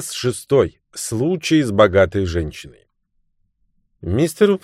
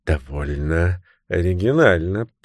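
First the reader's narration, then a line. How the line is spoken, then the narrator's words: Muttering. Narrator (Russian): пробормотал мистер Паркер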